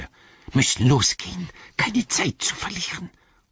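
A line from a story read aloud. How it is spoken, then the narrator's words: Hissed. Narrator (German): zischte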